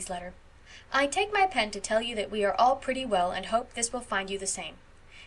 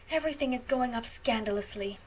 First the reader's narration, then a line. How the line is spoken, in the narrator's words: sighed Stella